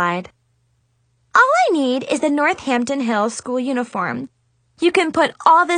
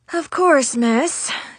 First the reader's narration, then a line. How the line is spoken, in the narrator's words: she said through gritted teeth